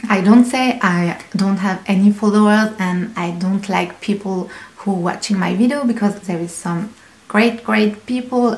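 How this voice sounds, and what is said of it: Strong non-native English accent. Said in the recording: “my accent is so horrible”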